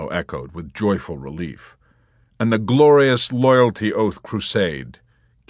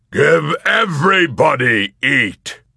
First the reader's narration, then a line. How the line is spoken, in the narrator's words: with righteous belligerence he roared